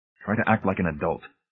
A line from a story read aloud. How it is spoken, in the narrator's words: he said in a low, angry whisper